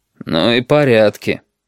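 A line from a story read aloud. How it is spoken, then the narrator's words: Grumbling. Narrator (Russian): проворчал пассажир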